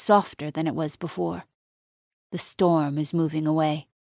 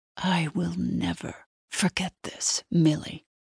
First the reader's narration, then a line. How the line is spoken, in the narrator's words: she hisses in my ear